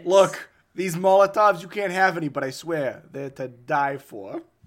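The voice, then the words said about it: Terrible put-on New York Boston accent. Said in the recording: “I'm doing some like terrible, almost New York Boston accent.”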